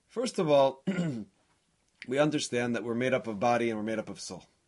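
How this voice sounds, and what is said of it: Scratchy voice. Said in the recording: “you can hear that my voice is a little scratchy.”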